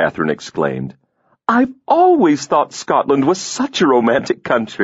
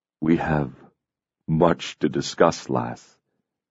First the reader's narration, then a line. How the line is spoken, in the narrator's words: he said tenderly